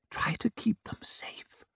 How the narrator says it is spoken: whispered

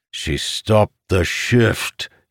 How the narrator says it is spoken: he said, biting back a growl

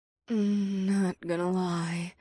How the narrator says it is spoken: Ada said through a soft moan

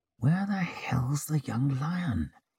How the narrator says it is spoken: he whispered through fixed lips

